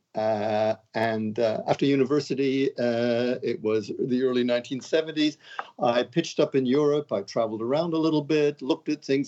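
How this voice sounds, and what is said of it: Canadian accent, not very British. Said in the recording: “you don't sound as British as a lot of the people from England”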